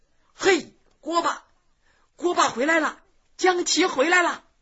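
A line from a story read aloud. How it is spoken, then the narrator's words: Clamoring crowd of students. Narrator (Chinese): 同学们又叫又嚷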